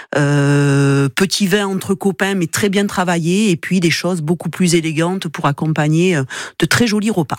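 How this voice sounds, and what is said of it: Slight singsong Toulouse accent. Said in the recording (French): “la petite pointe d'accent de Toulouse aussi, peut-être que vous l'entendez ... Il chante aussi. ... ce sont des accents qui chantent.”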